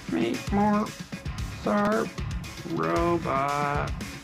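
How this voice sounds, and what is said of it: Bad robot voice impression. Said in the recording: “do the robot voice ... That's a terrible robot voice.”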